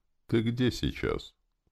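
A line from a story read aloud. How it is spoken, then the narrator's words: Tired question. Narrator (Russian): Я устало спросил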